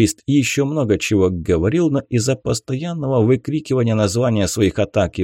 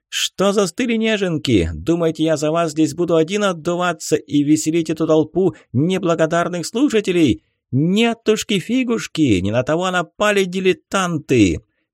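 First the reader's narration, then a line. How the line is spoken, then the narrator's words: Smirking shout. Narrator (Russian): он лишь усмехнулся и прокричал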